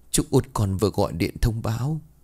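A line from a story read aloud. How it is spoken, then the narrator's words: Sighing woman. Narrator (Vietnamese): Bà Bình thở dài rồi bảo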